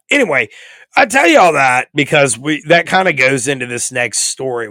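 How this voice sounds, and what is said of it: Hoarse, strained voice. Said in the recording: “my voice wasn't as jacked up”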